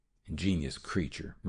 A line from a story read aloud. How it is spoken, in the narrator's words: murmured Dr